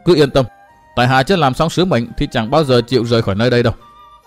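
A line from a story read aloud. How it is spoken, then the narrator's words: Cold mocking voice. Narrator (Vietnamese): Từ Mã Minh cười nhạt, cất giọng mai mỉa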